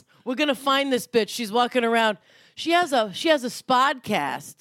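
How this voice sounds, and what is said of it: Put-on mobster-style accent. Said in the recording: “that sounds right, though, when you do it in that accent”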